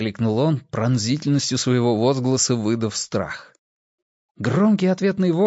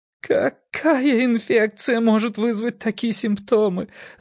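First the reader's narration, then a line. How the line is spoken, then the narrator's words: Sobbing. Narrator (Russian): зарыдала она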